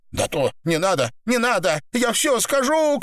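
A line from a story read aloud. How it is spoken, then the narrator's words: Screaming. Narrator (Russian): кричала Наташа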